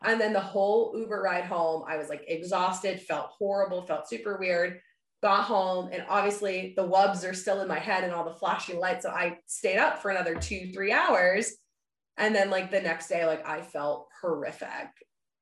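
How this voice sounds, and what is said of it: Sick, slightly odd-sounding voice. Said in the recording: “I ended up getting like a horrible sinus infection right after. So that's why my voice sounds a little funny right now.”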